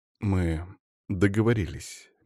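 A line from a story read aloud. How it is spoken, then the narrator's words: Soft smiling. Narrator (Russian): мягко улыбнулся я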